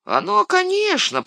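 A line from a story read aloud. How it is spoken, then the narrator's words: Grumbling. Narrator (Russian): проворчал он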